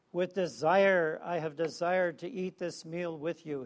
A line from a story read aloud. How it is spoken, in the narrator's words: he said